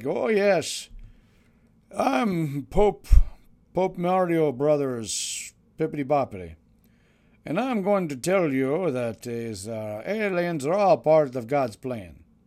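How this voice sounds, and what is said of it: Terrible impression of the Pope. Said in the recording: “my terrible impression of Pope What's-His-Face”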